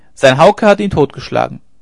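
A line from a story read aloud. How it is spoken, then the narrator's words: Call. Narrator (German): rief sie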